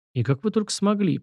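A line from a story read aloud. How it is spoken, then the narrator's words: Mumble. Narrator (Russian): пробормотал я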